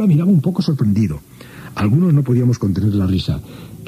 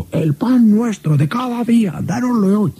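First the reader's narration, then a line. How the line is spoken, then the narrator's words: Group almost shouting. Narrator (Spanish): Nosotros contestábamos casi gritando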